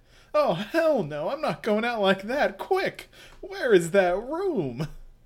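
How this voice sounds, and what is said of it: Cartoonish character voice. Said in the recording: “I love doing Akira's voice because he's such a cartoon character”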